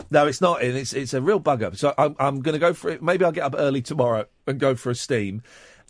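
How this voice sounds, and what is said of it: Hoarse, losing voice. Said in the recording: “I start losing my voice”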